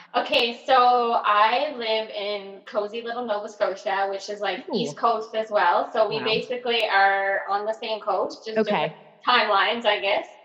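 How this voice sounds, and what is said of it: Slight Nova Scotian accent. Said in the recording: “you have a little bit of an accent too”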